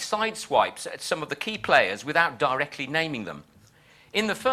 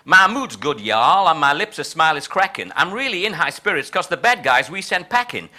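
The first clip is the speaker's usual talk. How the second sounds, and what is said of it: Exaggerated put-on Texan accent. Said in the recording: “hence the Texan style of my translation ... I apologize in advance for my appalling Texan accent.”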